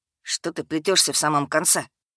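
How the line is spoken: Grumbling. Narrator (Russian): проворчал Эдгард

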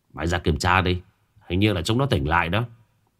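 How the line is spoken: Grumbling. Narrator (Vietnamese): Tức khắc bên ngoài có tiếng cằn nhằn

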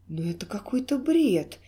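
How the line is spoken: Exclaimed, losing patience. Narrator (Russian): не выдержав, воскликнул Олег

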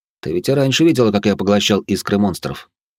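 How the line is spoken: Calm young man. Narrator (Russian): спокойно ответил парень

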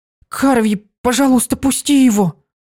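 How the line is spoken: Frightened whisper. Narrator (Russian): Испуганно зашептала Дитси

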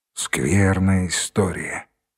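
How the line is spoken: Sigh. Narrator (Russian): вздохнул Данилов

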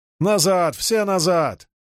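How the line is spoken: Sergeant bellowing. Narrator (Russian): заорал унтер

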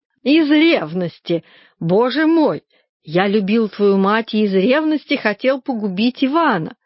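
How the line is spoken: Laughing. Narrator (Russian): Он снова засмеялся

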